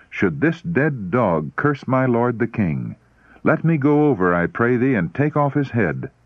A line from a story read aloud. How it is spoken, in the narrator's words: he exclaimed